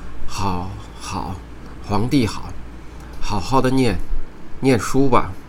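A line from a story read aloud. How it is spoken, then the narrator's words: Flustered mumbling. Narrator (Chinese): 我的父亲原来比我还慌张，声音含混地说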